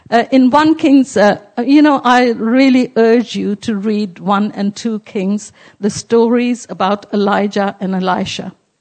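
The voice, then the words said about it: Strained, failing voice. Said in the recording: “my voice is going.”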